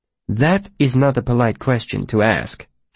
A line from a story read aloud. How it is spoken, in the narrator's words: she said stiffly